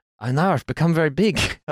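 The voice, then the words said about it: Attempted Dutch accent, sounding Scandinavian. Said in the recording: “What accent was that? ... I was trying to do Confucian Dutch and it came out a bit Scandinavian.”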